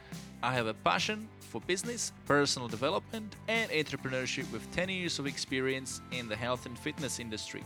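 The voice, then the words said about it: Czech speaker with Scottish-influenced accent. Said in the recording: “a Czech guy with a German looking surname and weird Scottish influenced accent living in Australia”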